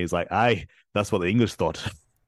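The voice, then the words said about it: Put-on Scottish accent. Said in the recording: “I'm gonna butcher a Scottish accent, so like, yeah, forgive me.”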